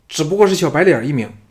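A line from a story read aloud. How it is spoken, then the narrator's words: Angry. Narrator (Chinese): 小白怒道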